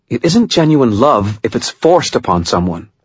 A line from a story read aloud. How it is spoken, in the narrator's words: Murphy said, her tone harsh